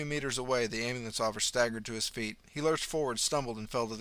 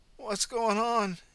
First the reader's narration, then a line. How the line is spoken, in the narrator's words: he blurted